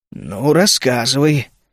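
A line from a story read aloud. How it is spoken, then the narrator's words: Calm. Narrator (Russian): спокойно обратился ко мне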